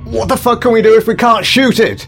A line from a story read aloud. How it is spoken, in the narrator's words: yelled the nearest soldier